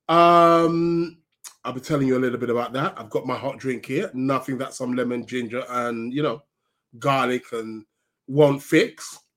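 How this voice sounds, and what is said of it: Voice with a head cold. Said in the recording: “as you can hear, I've got a bit of a cold.”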